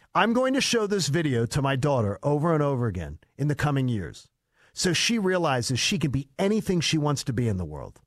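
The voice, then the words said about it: Mocking voice. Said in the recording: “do the mocking voice.”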